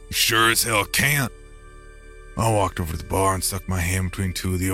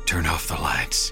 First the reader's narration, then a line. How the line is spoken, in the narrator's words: Galen whispered